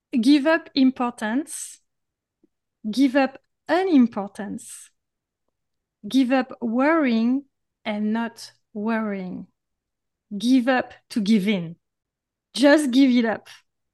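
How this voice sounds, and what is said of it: French accent. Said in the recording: “with my French accent”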